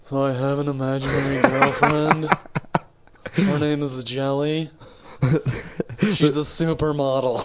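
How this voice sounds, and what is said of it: Imitation of another man's voice. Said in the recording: “I can't even do the guy's voice. Can you do the voice”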